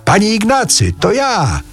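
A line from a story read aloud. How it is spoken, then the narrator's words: Newcomer shouting into ear. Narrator (Polish): przybysz krzyknął mu w ucho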